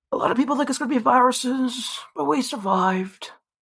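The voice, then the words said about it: Put-on old English-sounding accent. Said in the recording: “Is that your Scottish accent? ... that's not really Scottish. It just sounds like an old English accent, if anything.”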